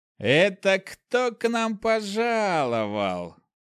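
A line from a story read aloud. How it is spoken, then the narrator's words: Young man's voice. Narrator (Russian): Слышу молодой голос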